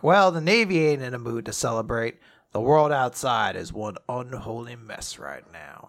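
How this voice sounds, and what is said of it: Cool guy character voice. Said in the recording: “I imagine he sounds like that, like a cool guy. ... I gave him a cool guy voice.”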